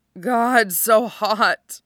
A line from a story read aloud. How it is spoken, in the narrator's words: Cronus moans